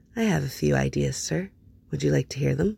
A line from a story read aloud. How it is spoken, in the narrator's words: leaning closer when he murmured